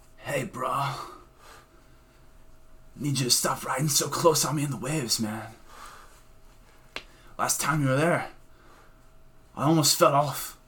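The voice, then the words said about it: Raspy surfer voice slipping Irish. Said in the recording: “I got Irish at the end there ... I'm making my voice too raspy”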